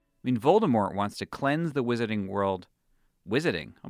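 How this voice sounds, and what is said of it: Boston accent. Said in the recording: “I just said that with a Boston accent.”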